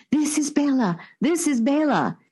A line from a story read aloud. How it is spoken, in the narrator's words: began to mumble hysterically